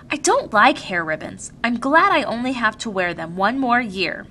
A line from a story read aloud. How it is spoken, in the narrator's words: Lily said irritably